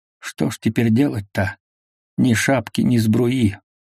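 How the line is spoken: Quiet wailing. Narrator (Russian): Алешка тихо голосил

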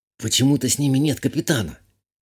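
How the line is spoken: Whispered. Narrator (Russian): шепотом сказала я

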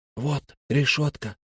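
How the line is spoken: Whisper. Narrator (Russian): прошептал Фари

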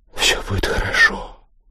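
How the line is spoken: Whispered. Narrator (Russian): прошептала она

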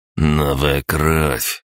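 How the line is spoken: Through gritted teeth. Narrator (Russian): сквозь зубы процедил Андрей

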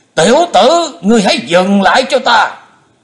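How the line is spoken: Loud shout. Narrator (Vietnamese): Bệnh túy thần quân ông ta quát to lên

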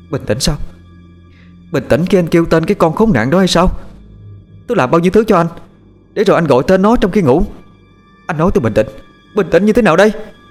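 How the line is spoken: Shout. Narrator (Vietnamese): Một tiếng hét vang lên

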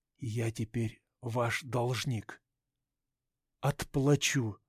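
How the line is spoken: Quiet. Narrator (Russian): тихо сказал

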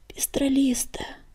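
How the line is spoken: Desperate silent plea. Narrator (Russian): в отчаянии взмолился про себя Огнегриф

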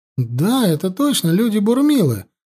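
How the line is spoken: Exclamation. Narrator (Russian): воскликнула Аюна

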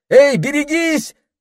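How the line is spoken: Yell. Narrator (Russian): закричал Питер

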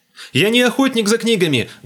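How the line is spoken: Loud. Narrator (Russian): громко сказал я

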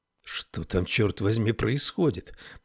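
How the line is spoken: Mutter. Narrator (Russian): пробормотала Тесла

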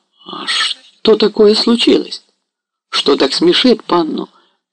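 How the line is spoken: Embarrassed, flustered. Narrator (Russian): произнес он краснея и растерянно

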